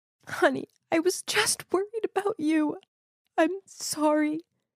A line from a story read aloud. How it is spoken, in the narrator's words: she said while sobbing